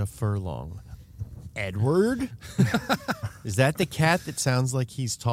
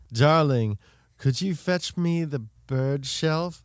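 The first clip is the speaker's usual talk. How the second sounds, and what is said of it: Fancy feminine British accent. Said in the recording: “Fancy feminine British accent.”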